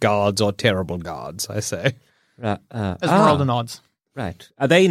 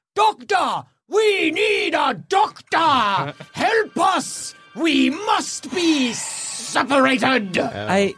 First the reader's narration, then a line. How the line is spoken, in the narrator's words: both of them, in perfect unison, scream up